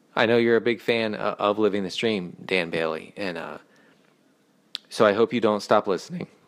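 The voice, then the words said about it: Choked-up voice breaking with emotion. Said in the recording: “I'm getting choked up. I'm getting choked up here. That's why my voice broke like that.”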